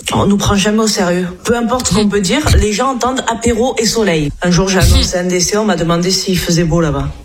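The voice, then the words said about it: Southern French accent. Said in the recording (French): “elle est du Sud. Et donc, du coup, elle a l'accent du Sud”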